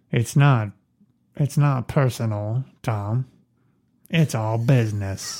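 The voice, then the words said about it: Imitates another person's voice. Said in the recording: “That's Jack Nicholson. ... He sounds like a cowboy. ... It's very easy to go from Jack Nicholson to John Wayne.”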